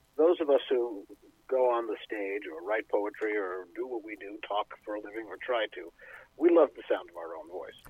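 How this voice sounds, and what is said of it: Rich, resonant radio voice. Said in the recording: “has an incredible voice ... your radio voice”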